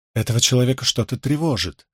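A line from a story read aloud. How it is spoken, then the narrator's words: Muttering. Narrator (Russian): пробормотала она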